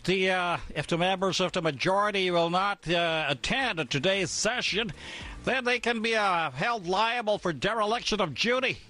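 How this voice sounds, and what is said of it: Imitating Senator Irwin Tulfo's accent. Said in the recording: “Di ba yun ang sabi ni Senator Irwin Tulfo? Did I get the accent right, partner?”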